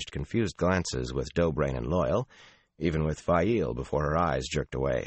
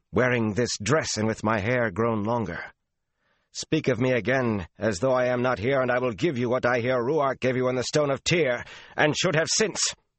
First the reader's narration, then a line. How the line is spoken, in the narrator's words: Sulin broke in savagely